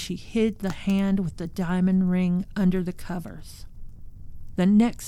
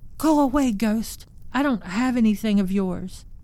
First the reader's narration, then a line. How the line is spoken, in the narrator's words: shouted